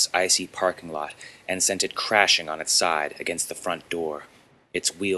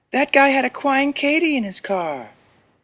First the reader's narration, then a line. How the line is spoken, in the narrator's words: the girl whined